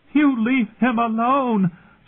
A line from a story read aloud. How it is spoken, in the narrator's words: Sansa screamed at her sister